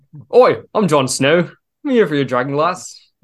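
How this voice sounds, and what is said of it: Imitates Jon Snow character voice. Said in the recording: “your impression ... doing a Jon Snow”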